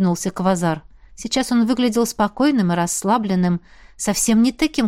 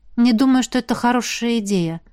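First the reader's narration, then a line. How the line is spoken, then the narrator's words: Sighing. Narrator (Russian): вздохнула я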